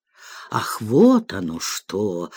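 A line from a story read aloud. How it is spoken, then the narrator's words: Offended drawl. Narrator (Russian): обиженно протянул мистер Грэдграйнд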